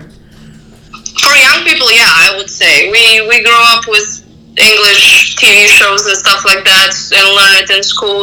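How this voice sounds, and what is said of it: Light foreign accent in English. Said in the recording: “your English is really good. Like, I just noticed an accent, but there's, like, I can understand you.”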